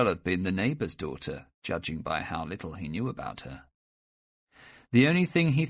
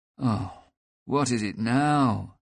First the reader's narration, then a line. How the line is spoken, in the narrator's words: said Niklas wearily